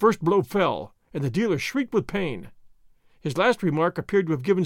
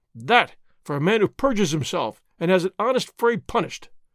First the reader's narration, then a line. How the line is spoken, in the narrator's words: Señor Zorro cried